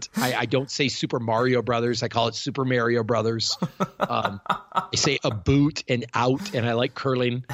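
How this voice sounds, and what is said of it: Canadian accent. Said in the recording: “I'm Canadian... I talk with an accent.”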